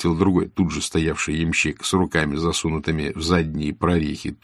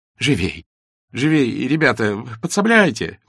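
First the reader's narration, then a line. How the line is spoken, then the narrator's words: Exclaimed. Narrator (Russian): воскликнул Николай Петрович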